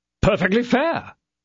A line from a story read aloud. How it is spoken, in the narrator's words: cried the other two guardsmen